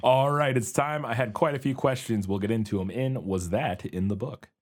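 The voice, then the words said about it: Voice off from a cold. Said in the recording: “I'm just getting over a cold, so that's why I sound weird. My voice is a little off”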